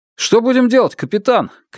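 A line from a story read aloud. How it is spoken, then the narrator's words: Shouting. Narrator (Russian): крикнул один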